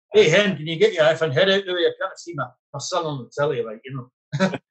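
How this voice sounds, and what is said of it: Put-on Glaswegian Scottish accent. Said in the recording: “with his Glaswegian accent”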